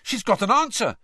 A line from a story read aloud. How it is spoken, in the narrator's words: said Ron excitedly